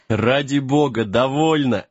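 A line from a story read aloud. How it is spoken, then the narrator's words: Laughing. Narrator (Russian): рассмеялся Джек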